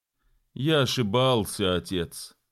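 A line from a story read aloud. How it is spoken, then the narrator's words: Sad reply. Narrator (Russian): грустно ответил Боб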